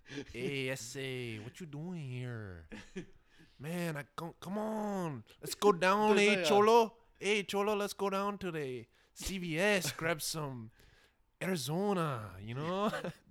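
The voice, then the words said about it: Put-on Mexican accent. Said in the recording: “Can you do Mexican? Yeah, gringo.”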